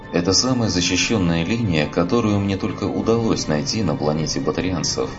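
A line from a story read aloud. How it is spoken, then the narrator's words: Plain. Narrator (Russian): ответил ей Андерсон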